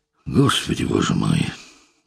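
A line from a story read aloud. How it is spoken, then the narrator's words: Suffering sigh. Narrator (Russian): вздохнул Игнатов, страдая от сознания неизбежного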